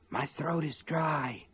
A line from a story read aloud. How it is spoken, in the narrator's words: Sean said in a husky whisper